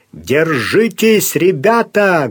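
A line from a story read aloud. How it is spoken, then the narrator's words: Loud, through clenched teeth. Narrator (Russian): громко сказал Сварог сквозь зубы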